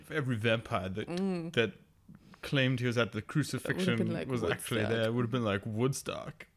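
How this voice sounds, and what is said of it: Poor English accent character impression. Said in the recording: “my terrible Spike impression... I can't do an English accent”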